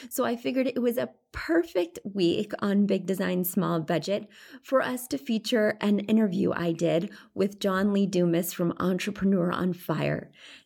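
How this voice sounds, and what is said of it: Congested, stuffy voice. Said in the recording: “I sound a little bit different this week because I have a cold.”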